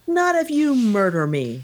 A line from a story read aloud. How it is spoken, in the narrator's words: shouted Pepone